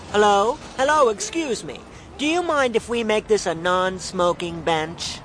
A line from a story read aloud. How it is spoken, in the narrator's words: called out